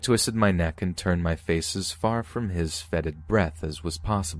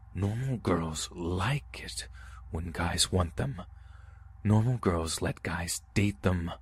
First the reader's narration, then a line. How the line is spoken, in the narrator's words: growled into my ear